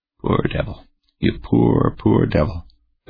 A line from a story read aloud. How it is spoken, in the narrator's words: the commander murmured